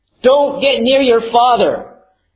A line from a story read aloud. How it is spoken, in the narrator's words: Ilana screamed at them